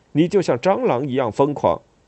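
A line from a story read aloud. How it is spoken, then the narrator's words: Angry. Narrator (Chinese): 我愤怒地说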